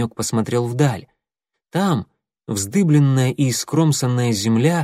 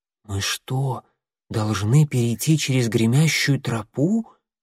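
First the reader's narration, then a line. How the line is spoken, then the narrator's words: Quiet question. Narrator (Russian): тихо спросил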